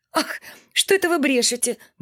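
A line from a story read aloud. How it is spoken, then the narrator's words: Mumbling woman. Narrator (Russian): бормотала Акулина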